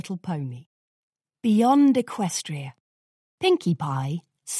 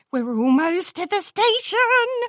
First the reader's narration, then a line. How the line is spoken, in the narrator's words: Pinkie Pie squealed loud enough for the other ponies in the train car to join in on her delight